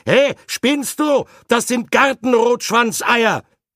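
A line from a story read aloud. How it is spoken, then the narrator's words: Sudden beside-oneself shout. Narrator (German): Völlig außer mir ... rief unvermittelt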